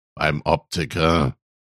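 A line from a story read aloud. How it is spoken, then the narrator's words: Father grumbling. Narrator (German): brummte Papi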